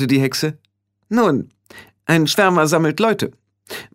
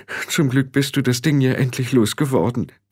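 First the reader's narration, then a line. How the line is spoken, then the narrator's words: Trembling voice. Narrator (German): brachte mit zitternder Stimme hervor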